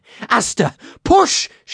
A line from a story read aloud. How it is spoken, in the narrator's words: She cried